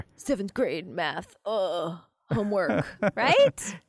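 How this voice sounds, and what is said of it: Young surfer-dude boy voice. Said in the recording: “was he a surfer dude or something? ... That's my impression of a 10-year-old boy.”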